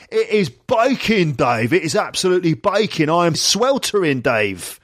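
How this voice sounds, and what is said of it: Cockney London bloke accent. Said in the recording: “he's doing the voice of a typical sort of London bloke ... this absolutely perfect accent ... Cockneys”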